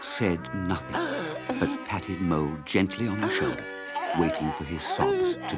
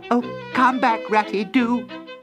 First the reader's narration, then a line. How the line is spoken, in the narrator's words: cried, hurrying after him